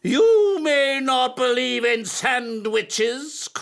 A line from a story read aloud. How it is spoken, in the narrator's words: cried his teacher